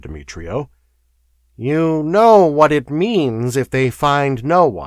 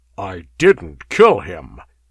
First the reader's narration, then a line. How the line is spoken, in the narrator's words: snarled the Cimmerian